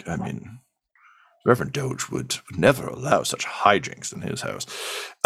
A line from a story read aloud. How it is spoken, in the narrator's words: Someone else just mutters